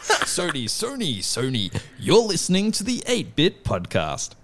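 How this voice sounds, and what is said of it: Polished news-reader voice. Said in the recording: “You do actually put on a proper voice.”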